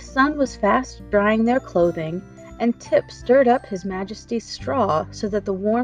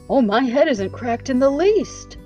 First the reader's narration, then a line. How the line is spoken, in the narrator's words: declared Jack more cheerfully